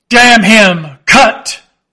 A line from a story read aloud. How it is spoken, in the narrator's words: roared Stubb